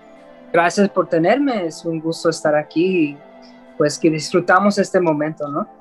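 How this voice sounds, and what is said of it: Slight Mexican Spanish accent. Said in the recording (Spanish): “tienes ese acento así como un poquito mexicano, güey ... se le escucha así como bien charro”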